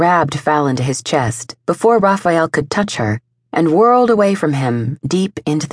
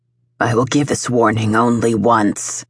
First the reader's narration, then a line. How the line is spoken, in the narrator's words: Lucian growled from the security of his pack, speaking not only to his brother, but to the council